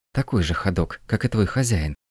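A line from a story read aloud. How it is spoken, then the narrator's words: Hissing. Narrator (Russian): шипела Люся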